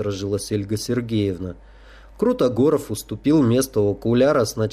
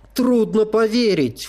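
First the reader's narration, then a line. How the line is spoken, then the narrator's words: Exclaiming. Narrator (Russian): воскликнула Таня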